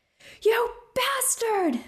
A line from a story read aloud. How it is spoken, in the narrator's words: screamed, face streaked with angry tears